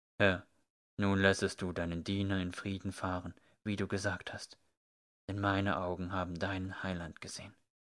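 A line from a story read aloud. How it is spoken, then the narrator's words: Very quiet. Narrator (German): sagte er ganz leise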